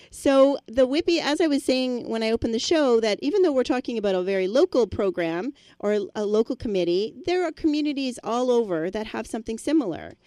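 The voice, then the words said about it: Slightly hoarse voice. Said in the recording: “my voice is a little hoarse ... mine is a little as well”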